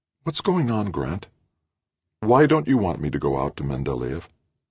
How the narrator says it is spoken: More gently, she asked

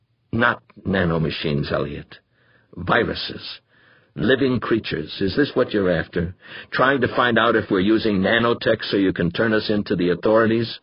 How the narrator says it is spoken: At last he said calmly, coldly

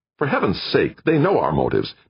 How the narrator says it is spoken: Meek snapped

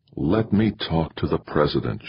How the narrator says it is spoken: begged

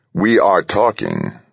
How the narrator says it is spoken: said coldly, precisely

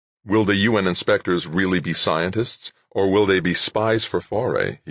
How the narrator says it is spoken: he said

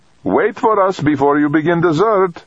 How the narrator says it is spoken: Dejurova called cheerfully

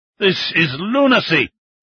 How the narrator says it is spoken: Chun Kun growled at Fang

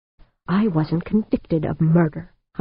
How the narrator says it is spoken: Humphreys snapped, keeping his voice low

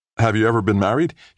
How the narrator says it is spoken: He blurted

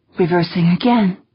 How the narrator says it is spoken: Negroponte said, her voice slightly shaky

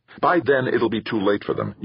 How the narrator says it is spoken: Yuan snapped

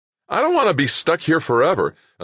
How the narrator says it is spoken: another voice called out

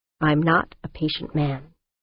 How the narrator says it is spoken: said, his voice low

